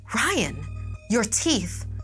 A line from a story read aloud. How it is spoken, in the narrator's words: Eva gasped